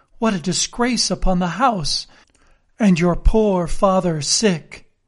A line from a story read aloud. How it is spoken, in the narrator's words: cried mother